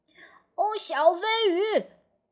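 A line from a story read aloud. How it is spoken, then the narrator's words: Excited exclamation. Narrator (Chinese): 谢灵通 兴奋地叫道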